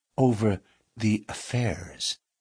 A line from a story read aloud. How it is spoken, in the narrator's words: the miner lowered his voice